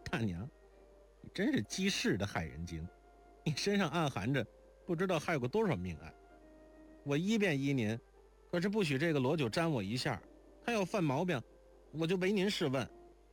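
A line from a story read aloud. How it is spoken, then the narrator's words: Sudden giggle. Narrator (Chinese): 如莲忽然扑哧一笑道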